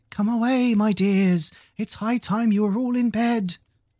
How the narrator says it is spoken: a canary called out in a trembling voice to its children

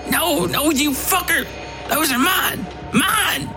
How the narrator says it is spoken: screamed

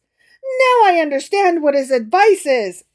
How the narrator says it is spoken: exclaimed the emperor

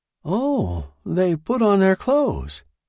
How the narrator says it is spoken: exclaimed with pleasure

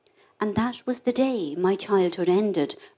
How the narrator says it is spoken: Bridie murmured

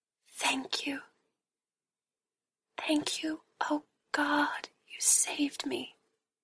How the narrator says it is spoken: She whispered over and over

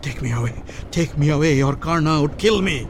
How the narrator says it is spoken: Yudhishthir panted

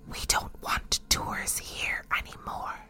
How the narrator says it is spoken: a little voice that whispered

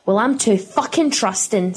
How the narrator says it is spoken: snarled Pippa, eyes fixed on the medical tools in restrained horror

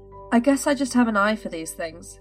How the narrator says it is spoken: he chuckled back

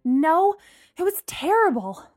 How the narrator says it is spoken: Lana groaned

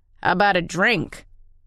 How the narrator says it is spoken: Tennyson growled

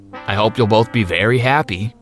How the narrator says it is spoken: he said sarcastically

